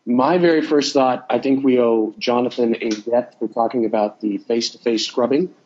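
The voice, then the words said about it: Stuffy, sick-sounding voice. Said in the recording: “I apologize for my voice, everybody. I'm coming off of a head cold.”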